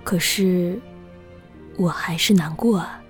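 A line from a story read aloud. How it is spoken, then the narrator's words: Murmuring. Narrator (Chinese): 静姐 喃喃道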